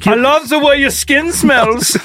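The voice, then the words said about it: Thick German accent in English. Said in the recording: “in English, but with a thick German accent ... Anytime I've ever done a German accent, it's always very loud.”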